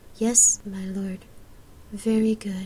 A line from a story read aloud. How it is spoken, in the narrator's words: Gabrielle sighed in reply